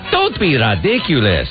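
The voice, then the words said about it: Fake foreign accent, Spanish-like. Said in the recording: “I even said it with an accent there ... It's like a Spanish accent? ... It was just a fake made-up accent.”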